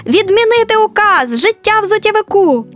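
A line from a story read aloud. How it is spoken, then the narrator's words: Astonished crowd shouting. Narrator (Ukrainian): Люди були враженими і за мить закричали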